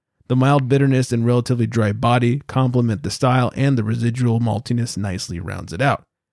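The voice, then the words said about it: Raspy, slightly hoarse voice. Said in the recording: “my voice is getting a little raspy”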